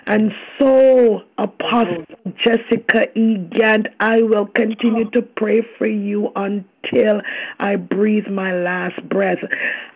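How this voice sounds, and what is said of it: Hoarse, worn-out voice. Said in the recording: “My voice is a little bit messed up. I've done a lot of speaking and preaching this week. My voice is messed up”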